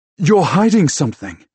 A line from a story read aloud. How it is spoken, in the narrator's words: I gasp